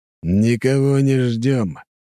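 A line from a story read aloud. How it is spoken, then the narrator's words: Phlegmatic, through clenched teeth. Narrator (Russian): флегматично процедил сквозь зубы Кряж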